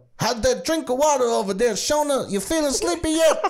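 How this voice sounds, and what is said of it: Good Bill Cosby impression. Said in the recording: “That was a weirdly good impression.”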